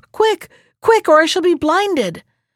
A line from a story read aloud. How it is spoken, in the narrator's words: cried Ian to the men who held the rope